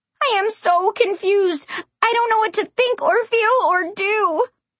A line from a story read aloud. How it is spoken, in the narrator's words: wailed